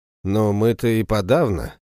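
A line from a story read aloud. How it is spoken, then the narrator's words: Grim joke. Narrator (Russian): мрачно пошутил Семен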